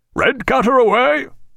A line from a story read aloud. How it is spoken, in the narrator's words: cried Jack